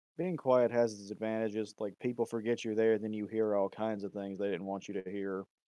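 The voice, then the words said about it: Quiet, monotone voice. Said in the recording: “I'm a pretty quiet person. My voice is very monotone ... It doesn't carry for shit ... even when I yell, it doesn't.”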